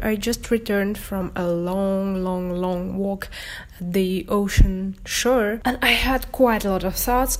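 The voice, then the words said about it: Voice sounds a little strange. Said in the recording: “my voice sounds a little bit strange because I was sick and I lost my voice”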